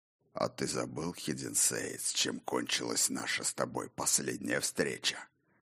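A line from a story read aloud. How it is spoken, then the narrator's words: Hoarse question. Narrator (Russian): хрипло осведомился сухая рука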